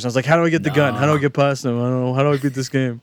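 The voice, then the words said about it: Imitates his own earlier voice. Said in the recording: “That's the best imitation of yourself.”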